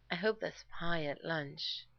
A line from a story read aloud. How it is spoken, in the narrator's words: Rodney said dreamily